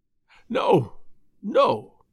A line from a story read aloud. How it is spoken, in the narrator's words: cried Morris piteously